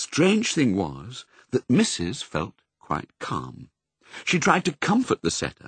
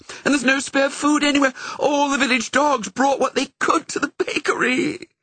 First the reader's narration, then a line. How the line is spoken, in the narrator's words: wailed the setter